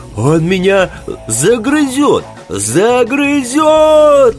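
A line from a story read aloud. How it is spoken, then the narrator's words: Howling wail. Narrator (Russian): Взвыл Костелян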